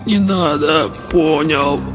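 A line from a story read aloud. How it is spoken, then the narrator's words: Lost, creaky, dazed voice. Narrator (Russian): потерянно проскрипел оглушенный контролер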